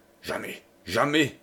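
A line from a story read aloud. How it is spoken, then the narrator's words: Muffled murmur. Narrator (French): murmure sourdement Jeanne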